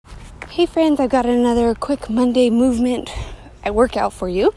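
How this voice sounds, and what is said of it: Slightly out of breath. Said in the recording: “kind of out of breath.”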